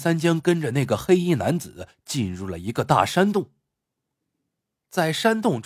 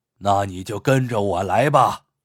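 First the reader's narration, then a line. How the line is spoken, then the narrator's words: Cold sneer. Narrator (Chinese): 那人冷冷一笑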